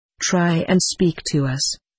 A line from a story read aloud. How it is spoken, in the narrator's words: says Mr